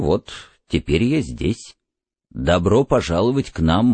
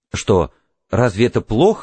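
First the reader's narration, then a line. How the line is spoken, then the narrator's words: Exclamation. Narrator (Russian): воскликнул Монтек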